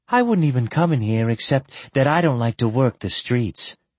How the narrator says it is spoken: she sighed

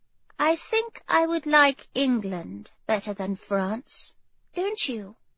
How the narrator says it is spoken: she said quietly

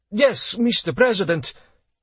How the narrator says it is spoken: Aronov stammered

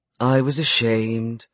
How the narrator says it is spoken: she sighed

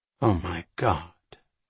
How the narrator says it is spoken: Jack muttered

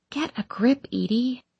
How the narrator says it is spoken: I whisper out loud

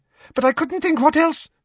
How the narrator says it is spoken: he said anxiously

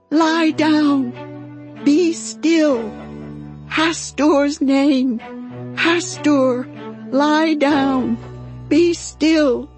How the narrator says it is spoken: George screamed

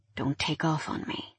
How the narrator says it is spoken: he said in a low voice

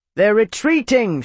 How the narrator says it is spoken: shouted someone on the wall

